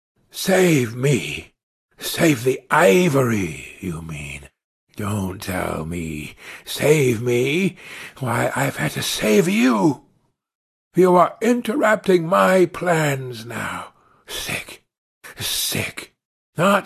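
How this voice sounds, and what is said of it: Deep character voice. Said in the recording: “Kurtz's deep voice”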